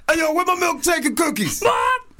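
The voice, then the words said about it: Raspy, growling, intimidating rapper voice. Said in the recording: “raspy ... more intimidating voice, like grr kind of thing ... DMX voice”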